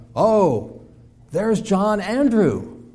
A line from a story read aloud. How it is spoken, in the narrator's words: she said, cried out